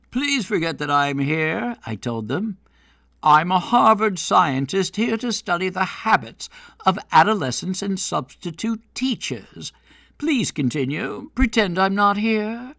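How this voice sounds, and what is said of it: Mild put-on British accent. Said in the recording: “donning a mild British accent for mystique”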